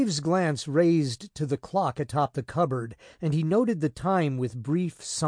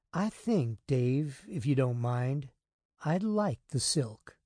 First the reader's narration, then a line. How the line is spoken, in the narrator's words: she said softly